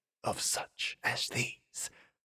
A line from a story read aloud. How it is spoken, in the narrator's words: he whispered softly